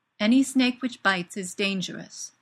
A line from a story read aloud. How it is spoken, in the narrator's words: says Gaius firmly